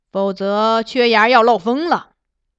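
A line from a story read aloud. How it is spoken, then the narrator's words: Mock-serious. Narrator (Chinese): 金上隐去笑意，故作严肃状，对公主道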